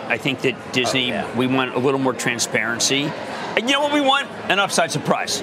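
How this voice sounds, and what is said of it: Strong regional American accent. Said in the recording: “God, I hate my accent so much. Jesus, get rid of it.”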